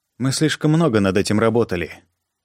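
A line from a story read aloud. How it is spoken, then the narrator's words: Quiet even female voice. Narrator (Russian): сказала Донна тихим ровным голосом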